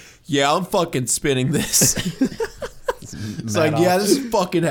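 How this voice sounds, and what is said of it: Usual voice. Nothing is said of it.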